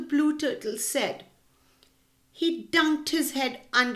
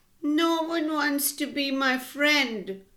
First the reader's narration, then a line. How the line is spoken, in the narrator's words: Limu said sadly